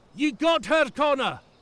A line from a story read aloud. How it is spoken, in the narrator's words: Duncan shouted